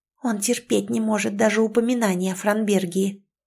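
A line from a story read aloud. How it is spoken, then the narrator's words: Faint old woman's whisper. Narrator (Russian): едва слышный шепот старушки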